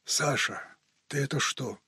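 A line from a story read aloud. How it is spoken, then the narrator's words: Frightened hoarse wheeze. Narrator (Russian): испуганно просипел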